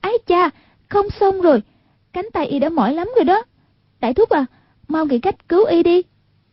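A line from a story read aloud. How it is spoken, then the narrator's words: Frightened crying out. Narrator (Vietnamese): trên mặt lộ vẻ hoảng sợ, kêu lên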